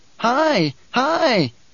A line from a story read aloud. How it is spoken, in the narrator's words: Bijah's cried